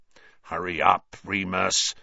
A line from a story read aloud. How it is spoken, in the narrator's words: snarled Black